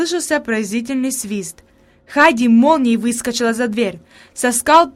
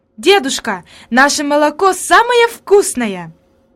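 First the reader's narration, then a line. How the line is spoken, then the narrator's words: Exclaimed. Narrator (Russian): она воскликнула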